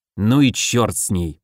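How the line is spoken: Irritated, weary. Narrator (Russian): бросил он раздраженно, устав от бесплодных поисков

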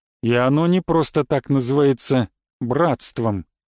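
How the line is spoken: Gloomy. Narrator (Russian): мрачно добавил Святослав

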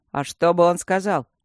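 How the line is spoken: Snort. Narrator (Russian): фыркнул Мартин

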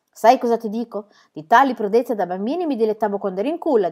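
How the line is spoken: Plain. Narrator (Italian): disse Pippi

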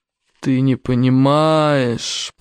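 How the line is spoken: Moaning. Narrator (Russian): простонал Ярогнев

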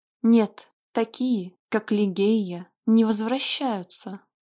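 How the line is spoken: Muffled objection. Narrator (Russian): глухо возразил Вальтер

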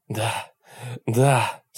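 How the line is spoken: Moaning woman. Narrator (Russian): стонала она

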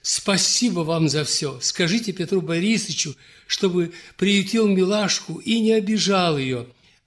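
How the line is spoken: Excited woman answering. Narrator (Russian): взволнованно отвечала княгиня

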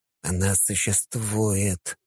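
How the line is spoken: Muttered. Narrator (Russian): пробормотал

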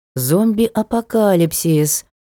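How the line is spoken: Drawn-out, savoring drawl. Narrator (Russian): протянула, как бы пробуя слово на вкус

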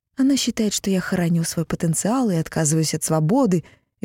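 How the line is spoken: Sorrowful sigh. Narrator (Russian): Винга сокрушенно вздохнула

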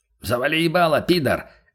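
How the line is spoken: Guard barking. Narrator (Russian): рявкнул на него голос конвойного

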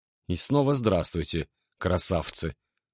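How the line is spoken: Muttering. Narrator (Russian): пробормотал я

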